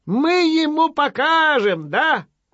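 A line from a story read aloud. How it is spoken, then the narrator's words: Frightened squeaking. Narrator (Russian): пищат, даже самим страшно делается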